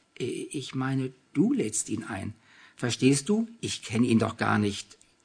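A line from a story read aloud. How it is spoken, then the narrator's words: Embarrassed stammering. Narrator (German): stotterte sie und wurde zunehmend rot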